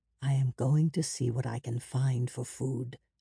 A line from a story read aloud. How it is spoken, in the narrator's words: Abram whispered